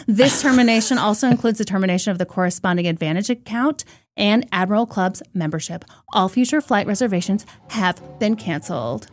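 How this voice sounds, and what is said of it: Put-on Valley Girl accent. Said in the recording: “Transformed to like a Valley Girl accent midway through the letter reading.”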